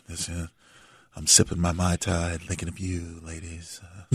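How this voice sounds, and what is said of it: Smooth late-night radio DJ voice. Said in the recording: “I always wanted to have that radio voice ... You're a natural, man.”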